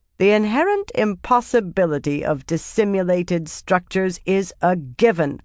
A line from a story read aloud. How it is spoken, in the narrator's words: Nagora said firmly